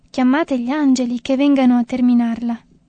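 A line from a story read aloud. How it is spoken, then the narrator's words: Moved exclamation. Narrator (Italian): Una religiosa aveva esclamato commossa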